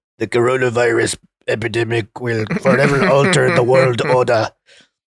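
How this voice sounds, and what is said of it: Imitates another person's voice. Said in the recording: “That's my Henry Kissinger impersonation. ... That was a really good Henry Kissinger. ... Too good.”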